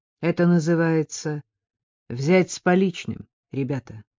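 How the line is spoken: Calm. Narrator (Russian): Микки спокойно сказал

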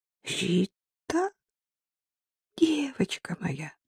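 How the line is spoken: Uncertain. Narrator (Russian): Лялька неуверенно произнесла

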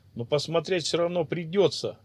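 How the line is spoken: Drunken laugh. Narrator (Russian): рассмеялся пьяный Акур

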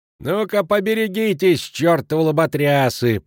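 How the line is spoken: Yelling cleaning woman. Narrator (Russian): вопит уборщица

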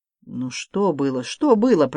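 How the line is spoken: Grumbling giant. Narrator (Russian): проворчал гигант

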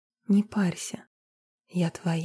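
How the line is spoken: Soft. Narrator (Russian): негромко сказала

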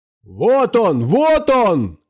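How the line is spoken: Woman shouting. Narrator (Russian): кричал тетка

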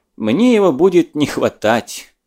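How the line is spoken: Complaining after laughter. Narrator (Russian): Отсмеявшись, пожаловался Бек Нестерову

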